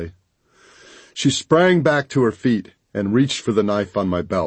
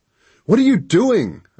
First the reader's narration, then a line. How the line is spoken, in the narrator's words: I yelled